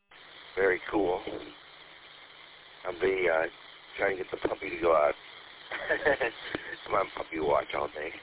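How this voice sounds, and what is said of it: Groggy morning voice. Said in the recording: “my voice is still my morning voice”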